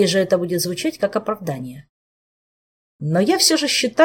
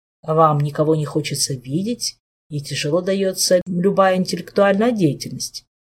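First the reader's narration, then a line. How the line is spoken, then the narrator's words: Even, flat voice. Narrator (Russian): ровным голосом произнес Шелар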